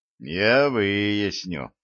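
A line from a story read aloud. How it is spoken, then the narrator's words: Said gloomily. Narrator (Russian): мрачно сказал Василий Петрович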